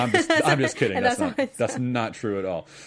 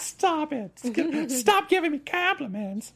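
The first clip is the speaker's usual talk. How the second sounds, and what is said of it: Imitates another person's voice. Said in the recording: “my impression of Markia. That's how she sounds to me. ... It kind of sounds like your comic book voice”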